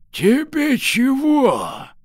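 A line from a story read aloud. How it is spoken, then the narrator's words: Old man's smoky rasp. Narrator (Russian): Старик прохрипел прокуренным голосом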